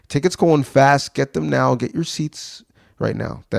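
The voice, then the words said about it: Salesman voice. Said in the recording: “That is my best impression of a salesman.”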